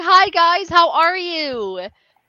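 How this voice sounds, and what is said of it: Put-on customer service voice. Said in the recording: “my customer service voice”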